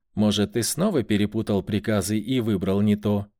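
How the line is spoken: Less soft, harder. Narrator (Russian): Голос Зары звучал не так мягко, как часом ранее

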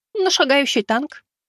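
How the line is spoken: Girl's smirking reply. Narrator (Russian): хмыкнув, ответила девушка

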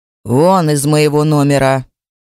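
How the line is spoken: Angry, through teeth. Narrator (Russian): Злобно цедит сквозь зубы

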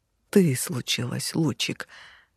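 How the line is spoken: Vampire breathless blurt. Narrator (Russian): выдохнул вампир и выпалил

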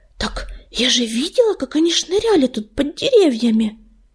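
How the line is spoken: Lowered, excited voice. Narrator (Russian): понизив голос, взволнованно сообщила принцесса

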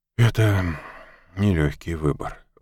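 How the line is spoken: Sigh. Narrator (Russian): вздохнул Мак

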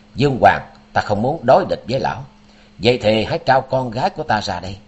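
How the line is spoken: Stern voice. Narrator (Vietnamese): Quan Thiên Đạt nghiêm giọng

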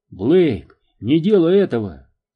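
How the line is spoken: Shout. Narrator (Russian): закричал Уилкс

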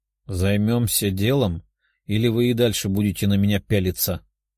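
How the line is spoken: Grumbling young woman. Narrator (Russian): проворчала девушка

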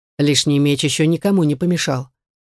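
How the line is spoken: Calm man. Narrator (Russian): спокойно ответил мужчина

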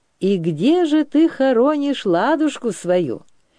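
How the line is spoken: Cheerful question. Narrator (Russian): весело спросил Дмитр

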